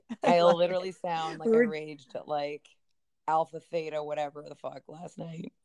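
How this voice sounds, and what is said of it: Raspy, husky party-worn voice. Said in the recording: “With your sexy voice ... there is nothing sexy about dumb bitch party voice ... party girl voice”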